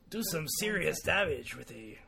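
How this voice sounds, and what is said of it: Imitates a game character's voice. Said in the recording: “my best Marcus impression”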